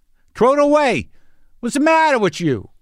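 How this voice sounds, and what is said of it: Put-on Queens New York accent. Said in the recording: “I even said it in that accent. ... from Queens”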